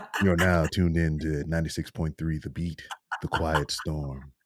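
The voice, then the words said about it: Deep smooth radio DJ voice. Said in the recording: “the best radio voice ... I got a deeper voice”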